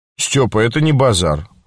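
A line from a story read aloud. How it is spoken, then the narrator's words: Calm. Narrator (Russian): спокойно сказал Лебедкин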